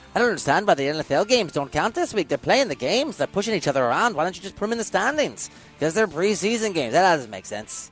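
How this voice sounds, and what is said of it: Attempted Irish accent. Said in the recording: “I can't do an English accent. I'm trying to do an Irish accent.”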